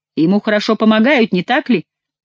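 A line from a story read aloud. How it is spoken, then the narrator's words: Exclaimed. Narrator (Russian): воскликнул король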